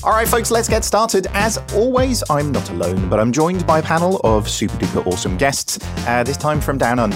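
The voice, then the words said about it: Norwich English accent. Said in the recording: “at least only my Norwich accent”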